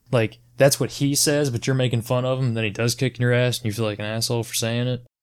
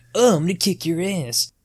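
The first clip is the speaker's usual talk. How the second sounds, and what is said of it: High-pitched mocking voice. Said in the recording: “doing that mimicking voice where you do like the high-pitched”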